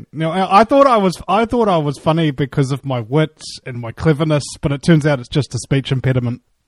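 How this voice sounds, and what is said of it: Distinctive, unusual accent. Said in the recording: “he's got a funny accent.”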